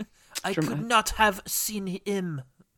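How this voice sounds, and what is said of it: Put-on French accent. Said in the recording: “Rose Leslie is doing a French accent that is far more what you want in a movie like this”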